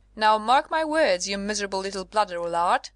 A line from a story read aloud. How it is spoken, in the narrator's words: he roared at the mayor